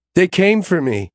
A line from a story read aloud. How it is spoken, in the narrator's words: she sobs